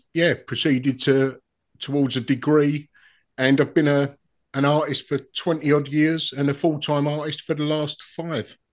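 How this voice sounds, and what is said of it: Essex accent. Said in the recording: “Is that an Essex accent? ... Yes, Romford. ... Well, Dagenham I am, but living in Romford.”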